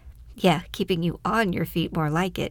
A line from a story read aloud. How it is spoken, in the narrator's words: he replied as they both chuckled